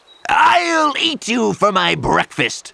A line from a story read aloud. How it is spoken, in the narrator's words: roared the troll